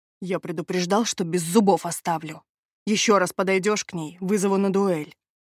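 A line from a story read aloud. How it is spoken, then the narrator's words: Growled. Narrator (Russian): прорычал мой защитник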